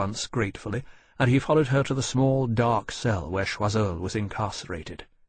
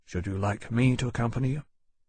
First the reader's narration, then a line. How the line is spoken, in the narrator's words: Lawrence asked quietly